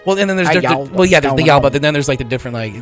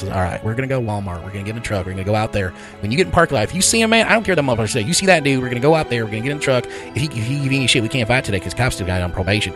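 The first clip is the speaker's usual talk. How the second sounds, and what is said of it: Exaggerated Southern redneck accent. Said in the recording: “accents, maybe? ... I just like rednecks. They're so fucking fun to mimic. ... It's just that down south... ... Especially like East Tennessee, where they're a little bit crazier. ... This is like America's, right. America's redneck voice.”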